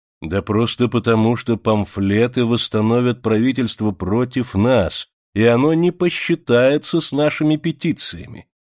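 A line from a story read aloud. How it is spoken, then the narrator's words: Plain. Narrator (Russian): сказал Гроссини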